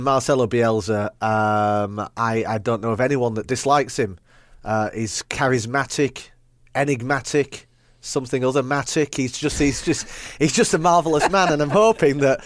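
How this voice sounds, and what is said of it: Yorkshire accent. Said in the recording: “I'm a Manchester United fan with a Yorkshire accent”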